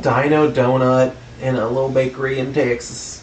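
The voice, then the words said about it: Texan-accented imitation of a singer. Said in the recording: “You sounded a bit like Texan Cher for a minute.”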